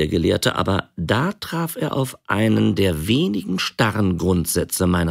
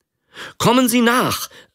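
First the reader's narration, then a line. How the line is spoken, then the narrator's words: Calling out. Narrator (German): rief er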